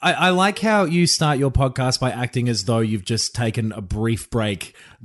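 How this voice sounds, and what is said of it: Usual voice. Nothing is said of it.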